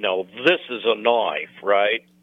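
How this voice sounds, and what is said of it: Crocodile Dundee Australian accent impression. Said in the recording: “Thinking about Crocodile Dundee ... What an accent.”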